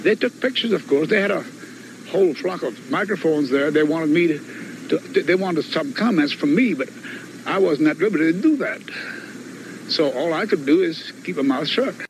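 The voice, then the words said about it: Deep Southern US accent. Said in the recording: “a deep southern accent ... get a load of Jesse Marcel's accent ... He sounds like, remember that Cajun”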